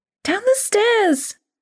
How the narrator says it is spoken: Grace cried

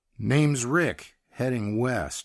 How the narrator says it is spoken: said

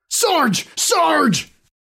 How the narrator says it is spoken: Cold sweat washed over him as he yelled

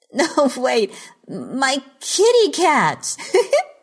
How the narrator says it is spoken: Geraldine giggled

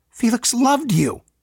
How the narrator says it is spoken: he shouted

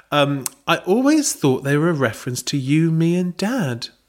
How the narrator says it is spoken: Belinda said sweetly

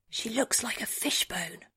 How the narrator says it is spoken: Rabia whispers

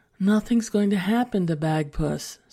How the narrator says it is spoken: sighed Emily's mother

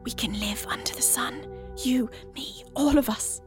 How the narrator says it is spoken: she whispers

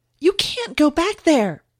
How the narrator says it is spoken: Kathy yelled

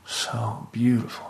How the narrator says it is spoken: she muttered

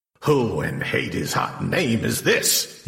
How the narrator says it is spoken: He growled

